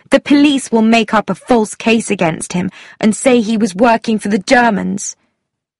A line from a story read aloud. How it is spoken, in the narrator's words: Tuppence said sharply